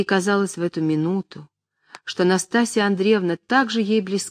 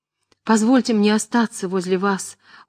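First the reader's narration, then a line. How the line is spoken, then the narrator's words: Pleading voice. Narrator (Russian): умоляющим голосом сказала Аня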